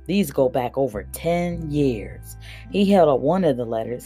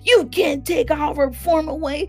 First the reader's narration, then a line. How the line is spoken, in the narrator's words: Little Willie screamed